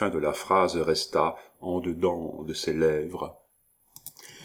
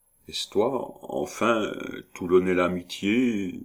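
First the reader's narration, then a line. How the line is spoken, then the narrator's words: Wheedling old man's voice. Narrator (French): demanda le vieillard d'un ton patelin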